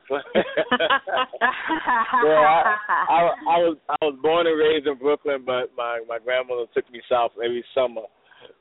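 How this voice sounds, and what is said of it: Brooklyn accent with slight drawl. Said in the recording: “you do have an accent... my Brooklyn accent... I hear a little draw.”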